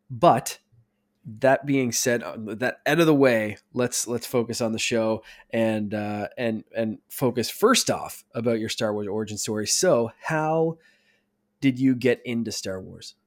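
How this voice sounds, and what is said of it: Congested, croaky voice from a cold. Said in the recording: “I have a cold. So if I sound weird ... my sinuses, which are just like clogged permanently ... apologize for my voice. I may sound a little Kermit the Froggy”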